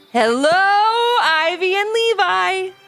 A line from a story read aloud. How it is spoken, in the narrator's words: Stormy said with a roar and a smile